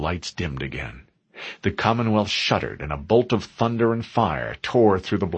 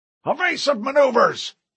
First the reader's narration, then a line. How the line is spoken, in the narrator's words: Captain Wallace cried